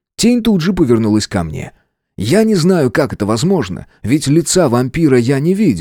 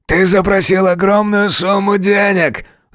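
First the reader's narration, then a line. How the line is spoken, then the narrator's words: Werewolf growling. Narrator (Russian): зарычал оборотень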